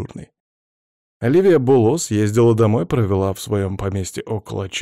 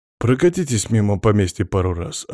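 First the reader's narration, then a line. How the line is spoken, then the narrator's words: Plain. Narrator (Russian): ответил командир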